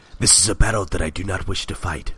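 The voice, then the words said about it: Wise old master character voice. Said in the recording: “doing the Splinter voice”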